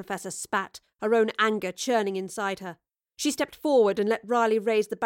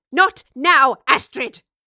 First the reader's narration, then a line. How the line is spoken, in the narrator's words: snapped the professor